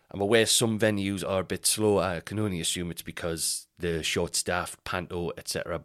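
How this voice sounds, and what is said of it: Congested voice from a cold. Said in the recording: “If I sound different, it's because I'm very ill. I've got a bit of a cold ... if I sound different because I'm ill, I've just got like a bit of a cold”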